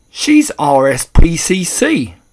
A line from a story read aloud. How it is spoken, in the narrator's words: cried Mr